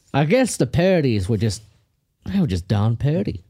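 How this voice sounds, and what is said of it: Put-on Southern accent. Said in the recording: “you speak with a southern accent”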